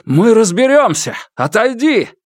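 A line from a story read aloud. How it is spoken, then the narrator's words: Yelled. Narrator (Russian): Лу Цзиньтан завопил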